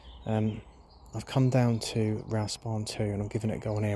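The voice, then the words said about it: Speaking very quietly, near whisper. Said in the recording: “I'm talking really quietly”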